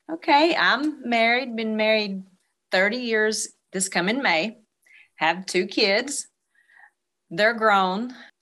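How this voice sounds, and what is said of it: Southern American accent. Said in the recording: “I hear the accent.”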